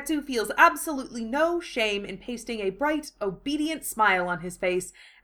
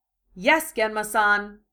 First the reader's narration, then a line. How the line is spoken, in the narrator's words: says, lying through his teeth